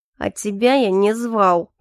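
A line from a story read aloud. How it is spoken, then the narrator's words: Through gritted teeth. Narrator (Russian): процедил Калипсо сквозь зубы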